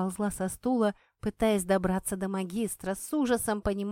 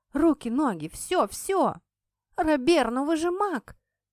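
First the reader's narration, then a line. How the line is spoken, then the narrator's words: Desperate exclamation. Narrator (Russian): воскликнула в отчаянии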